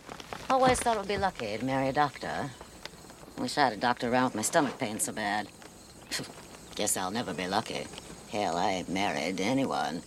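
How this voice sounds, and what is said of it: Maine accent. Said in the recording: “She's doing the same weird kind of accent. ... That's a main accent.”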